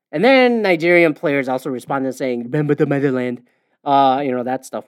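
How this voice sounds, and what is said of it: Imitates another person's voice. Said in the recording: “Why am I doing a Trump accent?”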